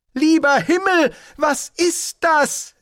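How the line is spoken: Calling out. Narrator (German): rief er

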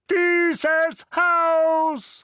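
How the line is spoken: Shout. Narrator (German): schrie Onkel Vernon

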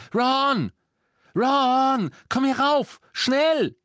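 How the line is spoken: Urgent shout. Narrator (German): beugte sich über das Treppengeländer und schrie

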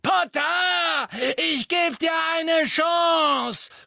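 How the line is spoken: Shouting. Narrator (German): schrie Bellatrix

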